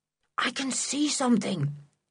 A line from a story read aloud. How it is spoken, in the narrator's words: he whispered